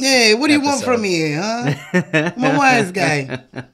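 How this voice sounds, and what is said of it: Put-on Italian wise-guy accent. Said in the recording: “an Italian accent”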